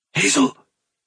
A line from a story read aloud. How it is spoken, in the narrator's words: he whispered